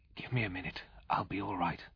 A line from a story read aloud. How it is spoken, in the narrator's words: whispered back